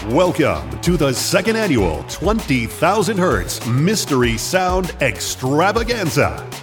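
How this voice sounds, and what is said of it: Game show announcer voice. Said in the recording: “the best game show announcer voice he could muster”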